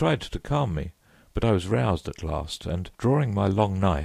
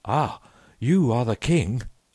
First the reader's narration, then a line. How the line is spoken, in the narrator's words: cried